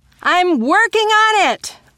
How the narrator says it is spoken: shouted back

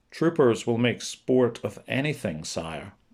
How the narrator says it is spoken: O'Sullivan said

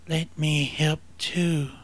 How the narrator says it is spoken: him whisper in her thoughts

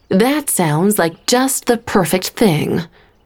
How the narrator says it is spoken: Stephanie said through clenched teeth

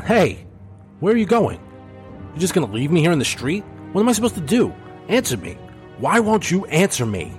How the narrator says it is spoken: Zach, confused, started to nervously shout

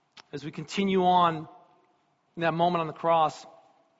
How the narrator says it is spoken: Jesus shouted out again

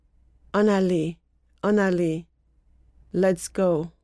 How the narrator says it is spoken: said quietly

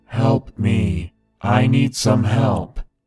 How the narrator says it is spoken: In a loud, monotone voice, he shouted to us

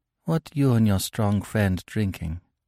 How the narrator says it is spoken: she said softly

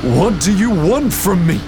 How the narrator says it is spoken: He roared at the chaos

